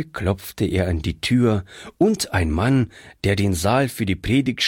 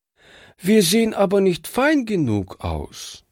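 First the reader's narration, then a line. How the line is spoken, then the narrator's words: Sad. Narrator (German): sagte traurig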